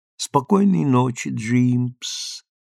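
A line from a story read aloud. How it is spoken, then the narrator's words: Drawling, yawning. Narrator (Russian): протянула она, зевая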